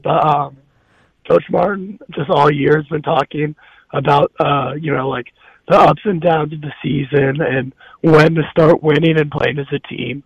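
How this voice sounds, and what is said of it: Raspy, strained voice. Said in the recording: “my voice has kind of gone, so it's going to be a little raspy”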